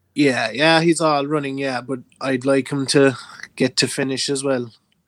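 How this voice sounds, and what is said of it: Irish accent. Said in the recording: “my accent is pure Irish”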